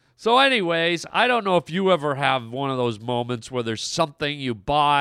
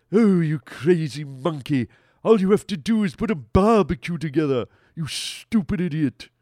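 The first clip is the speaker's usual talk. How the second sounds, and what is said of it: Cartoon character voice. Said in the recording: “However the guy from Family Guy sounds ... doing the Family Guy voices”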